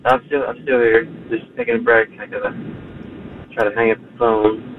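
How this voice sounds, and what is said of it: Imitates another person's voice, tired. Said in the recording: “This is Ace Frehley. ... Accent's back. ... clearly he is exhausted”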